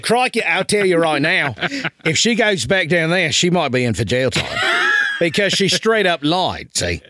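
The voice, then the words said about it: Bad put-on Australian accent. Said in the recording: “This is the worst Australian accent ever”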